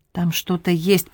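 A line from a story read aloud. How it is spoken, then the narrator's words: Calm muttering. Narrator (Russian): пробормотал Сераг, с непостижимым для его друга спокойствием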